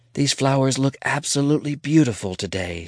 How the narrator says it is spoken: whispers to herself

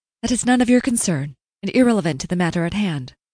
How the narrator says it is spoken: she said quickly

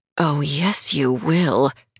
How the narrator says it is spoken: Adriana hissed

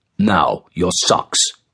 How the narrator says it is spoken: continued his father in a determined voice

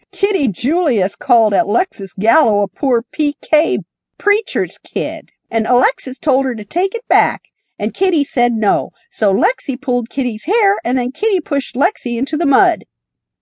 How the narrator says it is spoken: Marco laughed in reply

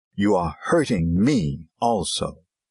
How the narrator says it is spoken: His voice rose into loud and angry words, and she cried out at him

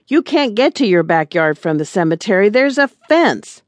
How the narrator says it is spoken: yelled Silas

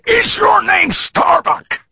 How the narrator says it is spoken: he shouted the question

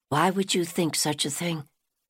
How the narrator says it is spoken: Stella whispered

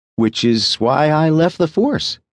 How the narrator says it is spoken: reminded him, playfully

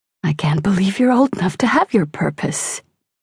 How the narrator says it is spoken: Mom says with a sigh

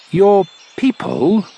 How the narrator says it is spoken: the doctor cut in sharply

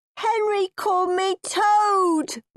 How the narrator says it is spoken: wailed Peter

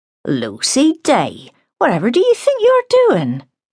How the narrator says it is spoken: she exclaimed

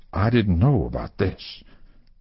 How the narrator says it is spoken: In an intense whisper, the older lawyer began

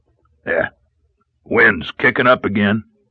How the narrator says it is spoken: muttered

